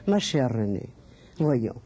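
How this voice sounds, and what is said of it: Imitated Central European accent. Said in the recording (French): “avec son accent d'Europe centrale”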